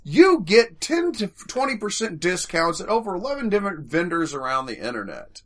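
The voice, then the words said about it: Southern American accent. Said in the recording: “I hate that you said my part in your southern accent”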